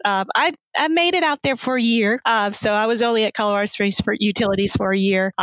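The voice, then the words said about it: Southern US accent. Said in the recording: “as you can tell from my accent, I am from the South. I'm from South Carolina.”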